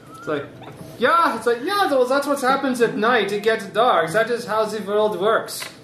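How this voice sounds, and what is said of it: Silly put-on Scottish accent. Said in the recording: “why do you talk with that silly accent constantly? ... I am Scottish!”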